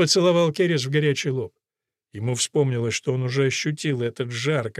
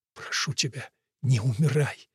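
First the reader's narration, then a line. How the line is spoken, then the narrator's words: Whisper. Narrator (Russian): прошептал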